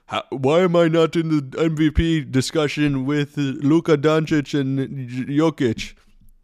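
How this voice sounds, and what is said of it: Imitation with vaguely Australian accent. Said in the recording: “my best Embiid imitation... I think he's Australian. Like, I don't even know what that accent was”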